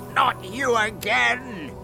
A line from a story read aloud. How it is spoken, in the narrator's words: shouted the magic fish angrily